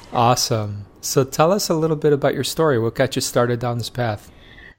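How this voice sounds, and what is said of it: Soothing, relaxing radio-style voice. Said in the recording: “your voice is very soothing, very relaxing. ... It's my light FM voice”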